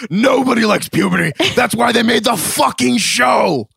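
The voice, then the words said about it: Good impression of a cartoon monster. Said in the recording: “That was a good impression.”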